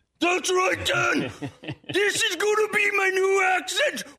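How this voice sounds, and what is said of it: Exaggerated put-on Irish accent. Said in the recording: “Irish accent ... Irish accent ... Seems a little over the top.”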